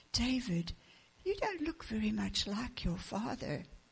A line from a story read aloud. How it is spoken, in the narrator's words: Julie said very softly so the father wouldn't hear